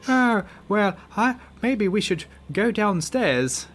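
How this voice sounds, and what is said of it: Attempted female American accent, sounds British. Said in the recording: “That's more British than American. I can't do a female American accent”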